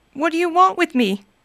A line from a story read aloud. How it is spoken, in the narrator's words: cried Scrooge